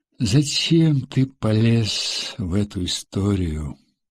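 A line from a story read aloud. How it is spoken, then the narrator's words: Weary question. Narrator (Russian): устало спросил Машков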